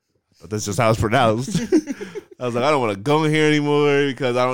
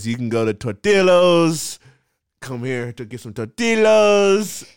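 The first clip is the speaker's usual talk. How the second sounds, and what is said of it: Put-on accent on a word. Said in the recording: “Why are you saying it with that accent?”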